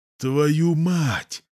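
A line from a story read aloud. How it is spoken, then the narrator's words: Hoarse croak, dry mouth. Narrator (Russian): хриплю я, во рту сухо, как в пустыне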